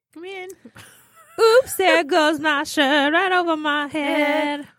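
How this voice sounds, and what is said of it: Silly singing voice. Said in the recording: “You guys just harmonized in your silly voice,”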